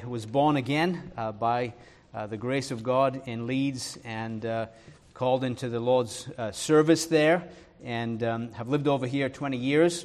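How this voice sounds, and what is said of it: Mixed northern English and Irish accent. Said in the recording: “my accent was probably corrupted while I was over there. So it's just kind of it's a mongrel accent ... Thankfully, I didn't pick up the Georgia accent”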